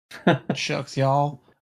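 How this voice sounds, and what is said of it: Put-on Southern accent. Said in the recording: “with a Southern accent”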